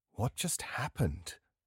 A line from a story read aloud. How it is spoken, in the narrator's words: I asked quietly